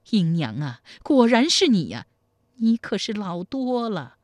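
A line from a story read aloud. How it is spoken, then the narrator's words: Sighing. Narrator (Chinese): 叹道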